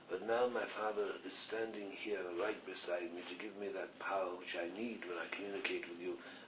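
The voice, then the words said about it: Slight Scottish accent. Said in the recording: “you've got your slightly Scottish accent.”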